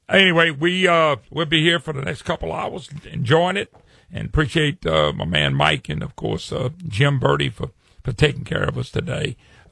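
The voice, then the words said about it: Louisiana accent. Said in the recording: “don't recognize that accent. It's Louisiana, trust me. They all talk funny down here.”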